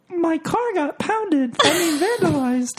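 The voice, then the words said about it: Imitates another person's voice. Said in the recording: “my CJ impression ... Let's hear your CJ impression. ... That sounds the same.”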